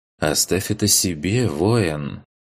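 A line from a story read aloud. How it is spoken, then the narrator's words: Low pleasant female voice. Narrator (Russian): низким приятным голосом произнесла она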